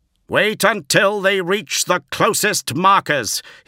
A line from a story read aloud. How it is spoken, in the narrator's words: ordered, bellowing in a voice that could reach from one end of the phalanx's training halls to the other